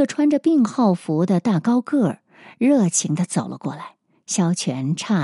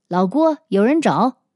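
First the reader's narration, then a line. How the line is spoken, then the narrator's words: Shout. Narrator (Chinese): 那个人喊了一声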